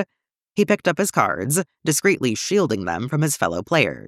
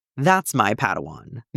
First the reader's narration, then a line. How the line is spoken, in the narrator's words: Mace said, nodding firmly